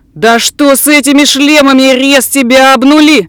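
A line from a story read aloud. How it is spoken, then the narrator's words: Yelling. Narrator (Russian): заорал Курт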